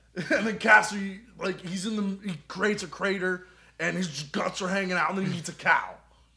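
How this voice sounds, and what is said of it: Imitates another person's voice. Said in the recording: “That is a good like, Seth Rogen. That is a very good Seth Rogen, man. ... I have a little bit of a sore throat, so I think that helps.”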